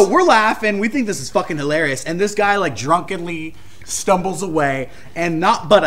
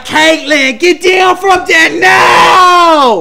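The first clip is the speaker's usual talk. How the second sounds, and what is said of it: Thick Boston accent. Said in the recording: “who has like the thickest Boston accent”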